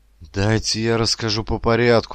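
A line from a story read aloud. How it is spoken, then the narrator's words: Pleading. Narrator (Russian): взмолился я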